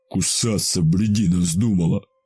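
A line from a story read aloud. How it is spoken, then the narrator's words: Growling. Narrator (Russian): Прорычал Михалыч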